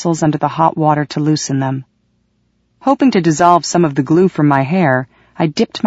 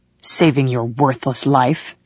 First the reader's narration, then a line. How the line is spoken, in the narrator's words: snarled